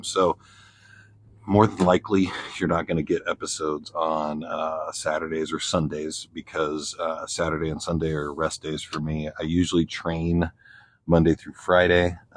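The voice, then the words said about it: Quiet, soothing ASMR-like voice. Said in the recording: “it's so hard to talk quietly ... very quiet and very soothing ASMR voice”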